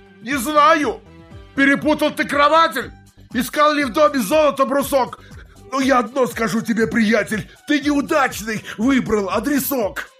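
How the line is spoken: Heated shouting. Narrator (Russian): долго бы он кричал еще в запале

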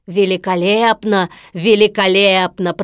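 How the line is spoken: Deep booming bass. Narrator (Russian): пробасил Стромболи

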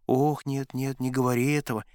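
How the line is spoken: Frightened whisper. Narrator (Russian): испуганно зашептала Олеся

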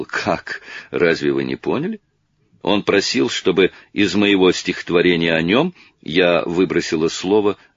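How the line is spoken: Laughing. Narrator (Russian): Она засмеялась и сказала

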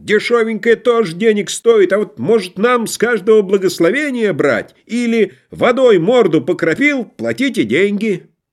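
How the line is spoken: Shouted. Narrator (Russian): Кто-нибудь крикнул

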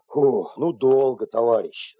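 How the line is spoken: Grumbling. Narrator (Russian): заворчал водитель

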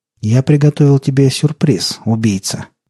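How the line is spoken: Solemn. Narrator (Russian): торжественно сказал голос

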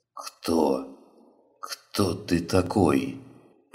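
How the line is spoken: Hoarse wheeze. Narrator (Russian): прохрипел он

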